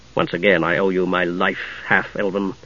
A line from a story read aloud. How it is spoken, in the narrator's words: Steele said bitterly